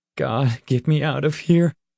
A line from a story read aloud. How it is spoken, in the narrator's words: he whimpered